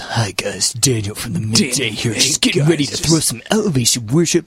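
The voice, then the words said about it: Deep announcer-style radio voice. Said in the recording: “He's got radio voice. ... He's got pipes. ... But he's got radio voice.”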